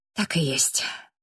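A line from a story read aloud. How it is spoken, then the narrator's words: Exhaled. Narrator (Russian): выдохнул Джастин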